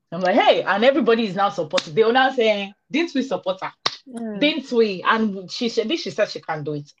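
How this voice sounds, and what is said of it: Nigerian accent. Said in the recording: “This accent you're picking up ... it has Nigerian accents”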